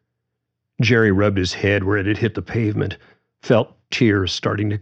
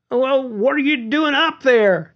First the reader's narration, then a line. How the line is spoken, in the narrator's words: Jerry yelled back